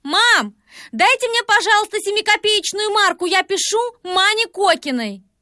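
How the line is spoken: Shouting to next room. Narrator (Russian): Катенька крикнула в соседнюю комнатушку

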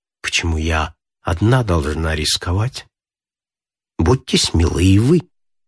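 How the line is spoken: Quiet after pause. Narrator (Russian): Помолчав, Зоя проговорила тихо

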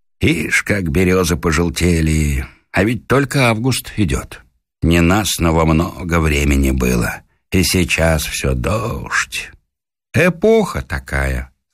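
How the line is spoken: Plain. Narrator (Russian): сказал Коля Курин

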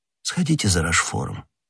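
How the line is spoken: Low-voiced command. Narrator (Russian): вполголоса приказал Ришелье

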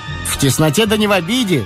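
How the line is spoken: Said, then tense laugh. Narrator (Russian): сказал брат судебного пристава и захохотал напряженно

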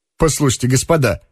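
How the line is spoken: Speaking with a laugh. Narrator (Russian): заговорил Лбов и опять заранее засмеялся

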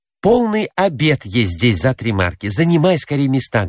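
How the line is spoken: Plain. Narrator (Russian): говорит она мужу

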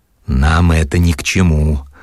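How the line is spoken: Hoarse, barely controlled. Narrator (Russian): плохо владея собой и хрипло отвечал Черноусый

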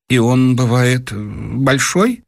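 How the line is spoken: Timid, choking question. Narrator (Russian): Дровосекин как бы поперхнулся и робко спросил

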